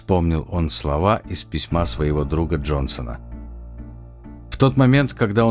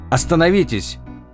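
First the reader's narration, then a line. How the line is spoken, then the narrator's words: Shout. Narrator (Russian): крикнул Сальватор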